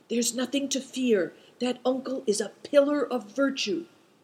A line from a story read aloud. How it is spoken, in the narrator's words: he whispered